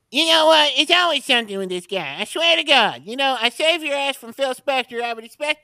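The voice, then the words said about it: Imitates another person's voice. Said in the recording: “Vince Neil, everybody, by the way, from Motley Crue ... That sounds pretty close to him.”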